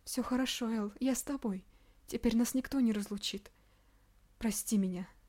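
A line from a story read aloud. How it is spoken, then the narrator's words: Tearful whisper. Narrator (Russian): шептала она сквозь слезы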